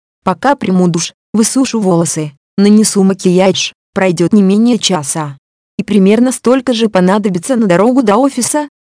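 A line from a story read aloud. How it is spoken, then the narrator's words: Calm retort. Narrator (Russian): спокойно парировала я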